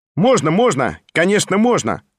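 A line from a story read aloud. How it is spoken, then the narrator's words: Loud cheerful shout. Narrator (Russian): Громко и весело крикнул сам Петр Степанович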